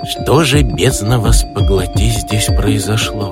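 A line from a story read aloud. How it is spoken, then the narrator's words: Goblin whispering in French. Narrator (Russian): по-французски прошептал гоблин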